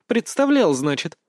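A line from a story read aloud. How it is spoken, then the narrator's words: Clear ringing laugh. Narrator (Russian): Элойна рассмеялась чистым звонким смехом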